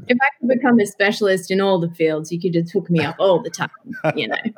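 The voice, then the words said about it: Speaks with a noticeable accent. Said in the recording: “You just like my accent.”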